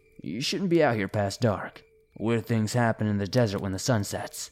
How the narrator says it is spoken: The man said in a gruff voice

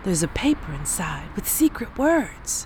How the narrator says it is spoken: Her older brother … exclaiming

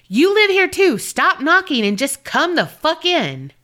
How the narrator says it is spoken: yelled at the top of her lungs

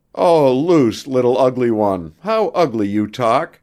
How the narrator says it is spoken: said Pierre, laughing

